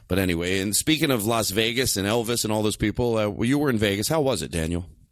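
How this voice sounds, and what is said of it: Affected, put-on speaking voice. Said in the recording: “I'm not doing my real voice right now. I've been having this affected. ... It's not the way I talk.”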